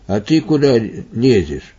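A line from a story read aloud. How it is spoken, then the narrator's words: Stern old man's question. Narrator (Russian): старец строго спросил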